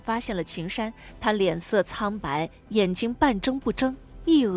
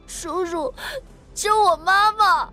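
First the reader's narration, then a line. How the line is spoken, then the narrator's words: Crying young boy. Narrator (Chinese): 小男孩哭着说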